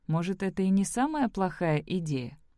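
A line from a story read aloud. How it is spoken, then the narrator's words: Plain. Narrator (Russian): сказала Элли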